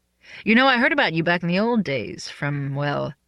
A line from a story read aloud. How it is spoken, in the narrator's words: he laughed